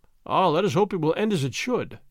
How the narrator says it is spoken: said Don Diego

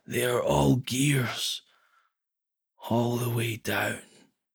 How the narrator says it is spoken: choked, and then he whispered

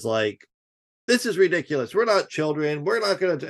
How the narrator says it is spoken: Ron DeSantis immediately bursts out, interrupting everyone in his stupid nasally voice, and says

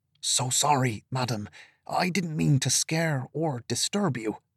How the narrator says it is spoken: Doran whispered

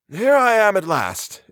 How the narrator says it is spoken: exclaimed the professor, somewhat wearily

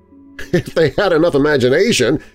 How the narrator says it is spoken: I laughed loudly

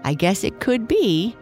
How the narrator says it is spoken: Lucy said, laughing

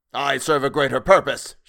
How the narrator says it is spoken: shouted Selwood

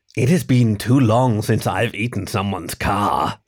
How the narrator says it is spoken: she rasped

